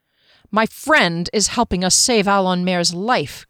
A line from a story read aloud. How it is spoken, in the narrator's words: Kier snapped